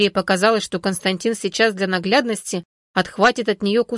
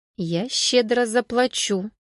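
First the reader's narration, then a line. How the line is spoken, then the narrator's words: Purring. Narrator (Russian): промурлыкал Константин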